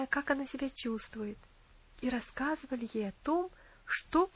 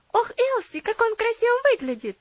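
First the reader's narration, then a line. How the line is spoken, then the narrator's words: Exclaiming. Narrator (Russian): воскликнула Энна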